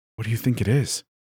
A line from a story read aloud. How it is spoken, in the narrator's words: Hero whispered